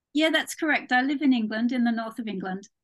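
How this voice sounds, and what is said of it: English accent with slight Australian trace. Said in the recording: “what a beautiful accent ... My accent isn't entirely English. I was actually born in Australia. ... I hear that, maybe a teeny bit.”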